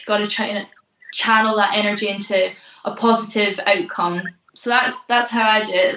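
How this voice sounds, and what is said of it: Scottish accent. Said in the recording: “I hear that lovely accent coming from you ... I'm from very sunny Scotland”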